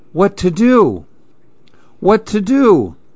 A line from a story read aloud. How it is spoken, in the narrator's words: And the man cried